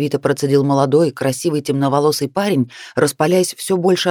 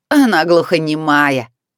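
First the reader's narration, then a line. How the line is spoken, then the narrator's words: Amused laughing young man. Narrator (Russian): рассмеялся Антей, рыжий парень, улыбаясь, получая удовольствие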